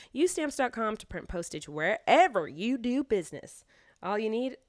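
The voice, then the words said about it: Sudden Southern US accent. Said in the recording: “a southern accent all of a sudden?”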